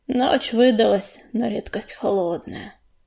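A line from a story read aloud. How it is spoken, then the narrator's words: Gloomy remark. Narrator (Russian): мрачно заметила кисточка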